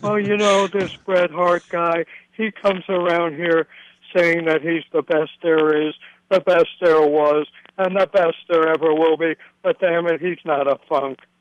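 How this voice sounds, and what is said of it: Terry Funk impression. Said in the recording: “your Terry Funk impression ... That was better”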